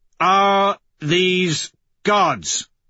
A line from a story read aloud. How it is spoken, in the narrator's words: I roar through my helmet